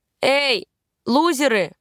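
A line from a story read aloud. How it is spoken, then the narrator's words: Shout. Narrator (Russian): крикнула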